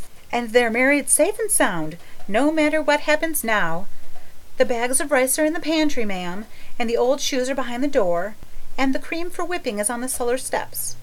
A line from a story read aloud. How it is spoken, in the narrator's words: breathed Charlotta the Fourth